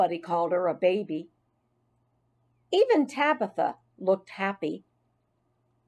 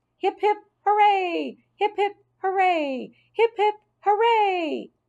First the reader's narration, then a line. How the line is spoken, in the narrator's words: I squeaked, jumping up and down for joy